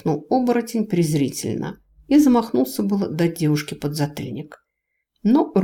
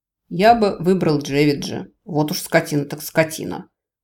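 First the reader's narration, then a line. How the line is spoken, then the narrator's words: Satisfied snort. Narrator (Russian): удовлетворенно хмыкнул студент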